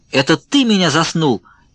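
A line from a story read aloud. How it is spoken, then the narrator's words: Shouted. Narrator (Russian): крикнул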